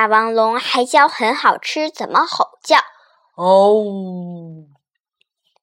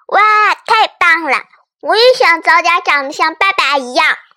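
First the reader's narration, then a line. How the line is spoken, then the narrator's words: Loud, excited. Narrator (Chinese): 它还是大声的说着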